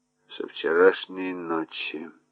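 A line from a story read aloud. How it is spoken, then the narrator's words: Muttering. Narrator (Russian): пробормотал Реймар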